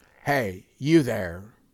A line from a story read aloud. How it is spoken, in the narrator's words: I growled